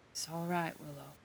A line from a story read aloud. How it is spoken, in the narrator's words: he says softly